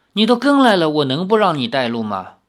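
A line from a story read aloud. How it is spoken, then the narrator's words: Sighing. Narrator (Chinese): 李逍遥叹了一口气说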